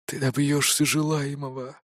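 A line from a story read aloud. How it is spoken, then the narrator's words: Whisper all around. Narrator (Russian): разносится шепот вокруг меня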